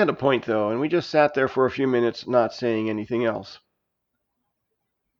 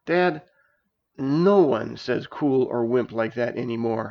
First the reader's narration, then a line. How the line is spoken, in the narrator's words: I groaned